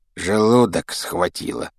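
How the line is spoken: Grumbling mutter. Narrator (Russian): пробурчал Рон

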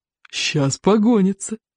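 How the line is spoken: Declaring, sobbing with laughter. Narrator (Russian): заявил Одноглаз, рыдая от смеха

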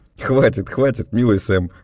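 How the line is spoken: Laughing. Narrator (Russian): засмеялся я

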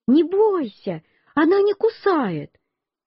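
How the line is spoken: Boy shouting. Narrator (Russian): мальчик, который правил, мне крикнул

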